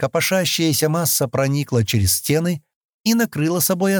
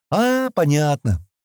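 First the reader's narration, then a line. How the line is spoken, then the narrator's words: Almost cheerful. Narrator (Russian): почти весело проговорила Кенни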